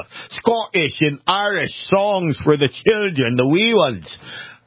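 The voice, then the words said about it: Put-on Scottish or Irish accent. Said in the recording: “That was my accent. I'm sorry. I shouldn't subject you guys to that”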